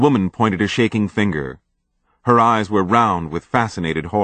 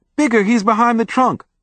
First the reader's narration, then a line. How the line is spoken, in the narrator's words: the girl whimpered